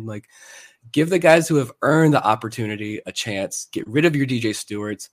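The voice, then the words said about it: Strained voice, losing his voice. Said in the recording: “I'm sick. I'm losing my voice.”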